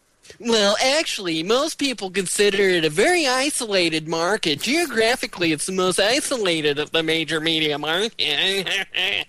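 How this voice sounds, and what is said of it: Put-on Reddit commenter voice. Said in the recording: “my Reddit impersonation ... That's your Reddit voice”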